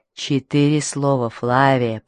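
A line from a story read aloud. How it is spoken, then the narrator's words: Hiss. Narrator (Russian): прошипел он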